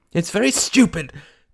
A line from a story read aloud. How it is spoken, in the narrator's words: cried Mary with a flash of anger